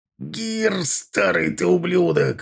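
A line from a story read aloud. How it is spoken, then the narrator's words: Roared. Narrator (Russian): взревел Аркар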